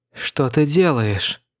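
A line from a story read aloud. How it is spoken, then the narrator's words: Breathed, less hatred. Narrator (Russian): Выдохнула, и в ее голосе было уже куда меньше ненависти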